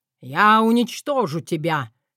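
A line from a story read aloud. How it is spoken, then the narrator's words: Barked roar. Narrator (Russian): рявкнул король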